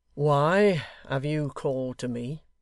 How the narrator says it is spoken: he said, slowly and quite calmly, far more calmly than he had ever spoken to him before

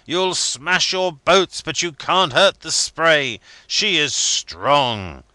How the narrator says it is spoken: I cried

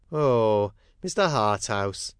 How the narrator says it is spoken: said Tom with a groan

